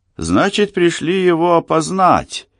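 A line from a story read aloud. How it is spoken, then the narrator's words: Joyful question. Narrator (Russian): радостно спросил санитар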